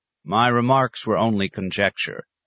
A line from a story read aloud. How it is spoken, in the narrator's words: said Thantadio